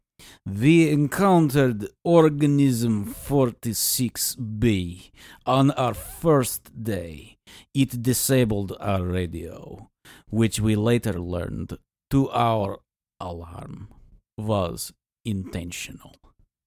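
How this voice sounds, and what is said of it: Reads aloud in a put-on accent. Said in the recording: “I'm not going to do an accent... Some very good”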